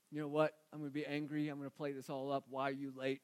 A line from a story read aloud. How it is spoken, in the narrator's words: Grumble, grumble, grumble